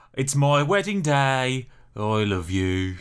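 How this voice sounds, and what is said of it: Flat, depressed-sounding Brummie accent. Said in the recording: “a proper Brummie accent ... The Birmingham accent, the accent of my birth and youth, is a bit like this ... you can sound incredibly depressed ... It's just the worst accent.”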